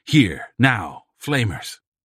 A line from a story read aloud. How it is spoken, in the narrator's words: The insulted party answered sharply